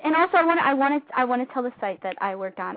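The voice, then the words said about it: Very fast talking, some stumbling. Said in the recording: “That's actually how I get my radio voice, actually. Like, the sugar helps me with the fast talking and sometimes it makes me stumble a little bit”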